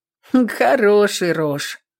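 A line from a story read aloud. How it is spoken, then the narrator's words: Scoffing grunt. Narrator (Russian): Хмыкнула та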